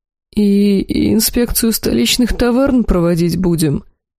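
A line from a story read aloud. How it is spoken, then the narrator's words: Timid question. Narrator (Russian): робко спросил глава торговой гильдии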